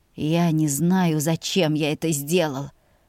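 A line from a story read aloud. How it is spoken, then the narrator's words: Hoarse mutter. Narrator (Russian): хрипло пробормотал он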